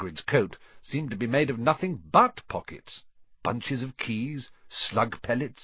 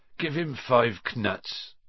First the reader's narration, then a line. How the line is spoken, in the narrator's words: said Hagrid sleepily